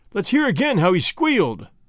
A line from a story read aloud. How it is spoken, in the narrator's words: they cried